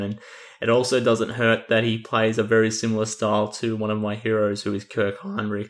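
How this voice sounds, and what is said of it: Speaks with a noticeable accent. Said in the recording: “given my accent”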